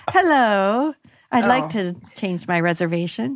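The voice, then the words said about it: Cheerful smiling customer service voice. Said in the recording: “it's like smiling when you talk to a customer service representative ... smile when you say that ... customer service voice”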